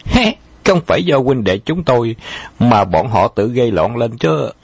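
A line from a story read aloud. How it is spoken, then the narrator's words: Hearty laughter. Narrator (Vietnamese): Khâu Trọng bật cười ha hả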